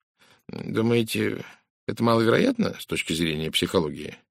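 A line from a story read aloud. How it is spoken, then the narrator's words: Calm inquiry. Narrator (Russian): спокойно поинтересовался Пуаро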